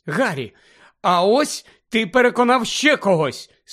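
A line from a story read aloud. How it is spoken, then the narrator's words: Excited exclamation. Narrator (Ukrainian): схвильовано вигукнула Герміона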